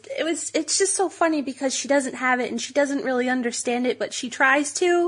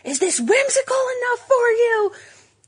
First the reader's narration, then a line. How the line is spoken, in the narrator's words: she was yelling across aisles